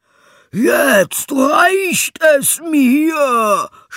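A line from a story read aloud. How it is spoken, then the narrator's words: Shouting. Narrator (German): schrie er, sprang wie ein Wilder auf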